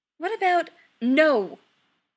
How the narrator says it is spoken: Chris says firmly

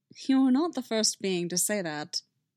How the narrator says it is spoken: Obi-Wan said dryly

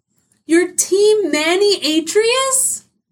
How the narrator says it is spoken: Helen cried ... she really was upset

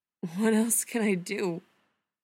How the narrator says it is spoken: he asks, and he hates the way his voice shakes

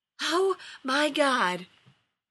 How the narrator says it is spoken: wheezed Rodney, looking as panicked as Ronan would never admit to feeling

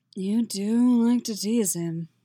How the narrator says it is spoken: Geralt says, his voice even more gravelly than usual

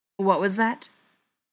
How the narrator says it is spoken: William asked sharply

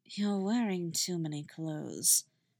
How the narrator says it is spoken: she muttered

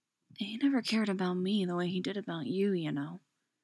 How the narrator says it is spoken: Lorraine whispered through her grief

